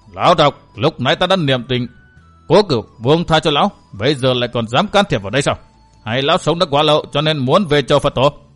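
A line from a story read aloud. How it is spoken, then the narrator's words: Shouting. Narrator (Vietnamese): Vừa quát, Minh Chủ Nhất Kiếm Minh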